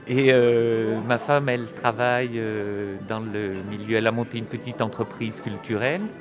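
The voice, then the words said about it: French accent that sounds somewhat Swiss. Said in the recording (French): “l'accent que vous avez, ce n'est pas l'accent de la région de Bordeaux ? ... je n'ai pas non plus l'accent de la région de Bordeaux ... Mais vous êtes Suisse, vous”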